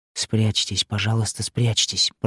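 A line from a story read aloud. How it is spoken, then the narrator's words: Whispered plea. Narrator (Russian): прошептала Елена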